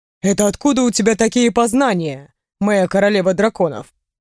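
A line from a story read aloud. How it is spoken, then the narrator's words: Snorting smirk. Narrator (Russian): Хмыкнул Рэй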